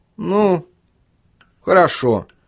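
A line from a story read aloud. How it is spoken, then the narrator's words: Uncertain. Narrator (Russian): неуверенно произнес Чарли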